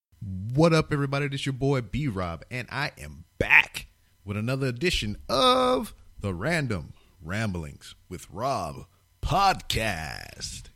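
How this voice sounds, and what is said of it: Put-on radio announcer voice. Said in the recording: “You like my radio voice, right?”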